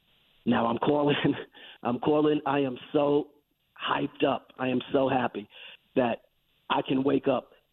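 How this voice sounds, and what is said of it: Raspy voice. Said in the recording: “this raspy voice”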